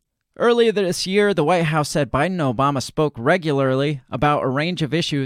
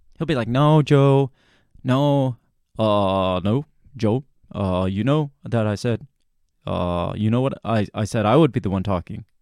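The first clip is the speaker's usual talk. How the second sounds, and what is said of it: Poor Barack Obama impression. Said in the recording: “That's a horrible Obama impersonation, but I tried.”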